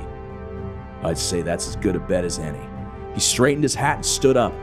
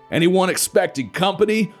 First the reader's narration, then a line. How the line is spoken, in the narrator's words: Florida yelled over the roar of the Jeep's engine